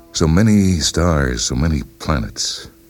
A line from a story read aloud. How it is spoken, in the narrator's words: sighed Geraldine, busy with her own thoughts